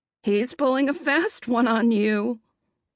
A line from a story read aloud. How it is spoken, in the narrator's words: Aunt Tilly laughs